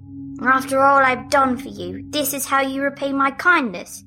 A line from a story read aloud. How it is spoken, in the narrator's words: roared at her